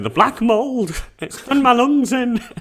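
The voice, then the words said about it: Poor impression of a friend. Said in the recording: “impression ... of Sophie. ... your regular voice sounds more like Sophie than that.”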